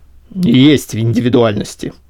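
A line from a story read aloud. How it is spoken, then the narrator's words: Grumbling. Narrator (Russian): пробурчал Сашка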